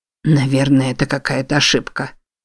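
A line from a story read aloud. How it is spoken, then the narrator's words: Whispered. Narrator (Russian): прошептал Бент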